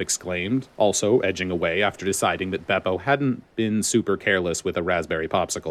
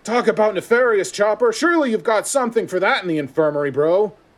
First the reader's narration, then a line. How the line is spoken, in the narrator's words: Franky yelled from behind the door